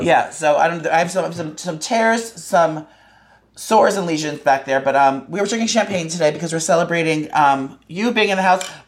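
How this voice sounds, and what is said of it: Hoarse, rough voice. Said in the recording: “Pardon my voice, everyone. This week I'm a little hoarse.”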